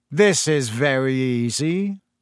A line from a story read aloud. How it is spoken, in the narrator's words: Malfoy drawled loud enough for Harry to hear him